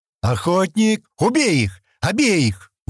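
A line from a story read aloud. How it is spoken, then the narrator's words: Sudden shout. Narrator (Russian): вдруг крикнул Стэн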